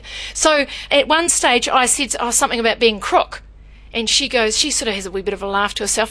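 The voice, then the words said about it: New Zealand accent. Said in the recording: “everything about me must take you back to New Zealand. My accent must remind you of it”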